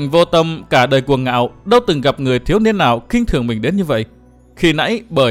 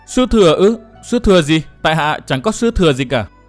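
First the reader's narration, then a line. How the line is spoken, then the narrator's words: Stammering, hesitant. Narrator (Vietnamese): chàng ấp úng nói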